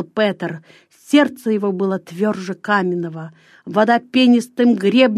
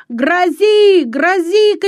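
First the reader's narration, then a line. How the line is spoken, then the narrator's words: Breathless shout. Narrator (Russian): крикнул он, с трудом переводя дух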